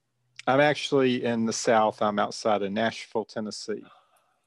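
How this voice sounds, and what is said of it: American Southern accent. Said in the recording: “I can tell by the accent that you're about probably three to 6,000 miles away from me”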